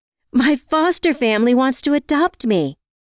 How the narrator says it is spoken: Joanne screamed out excitedly

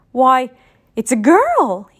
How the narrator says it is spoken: he exclaimed

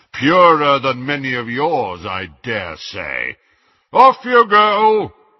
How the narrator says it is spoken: he boomed to the Muggleborns

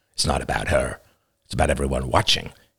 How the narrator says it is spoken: growled in low rent satisfaction

